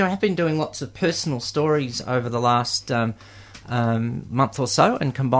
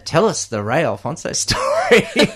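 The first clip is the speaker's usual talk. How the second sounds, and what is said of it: Television announcer voice. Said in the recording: “my sort of my best um, television announcer voice.”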